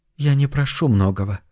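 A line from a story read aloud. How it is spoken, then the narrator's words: Soft. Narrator (Russian): мягко продолжила Шай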